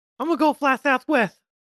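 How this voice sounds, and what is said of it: Mike Tyson impression. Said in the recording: “I can't do a Mike Tyson accent, but I wish I could ... That wasn't bad.”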